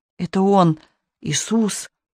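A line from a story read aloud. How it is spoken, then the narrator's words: Muttering in another's voice. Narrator (Russian): Ангел забормотал чужим Ксениным голосом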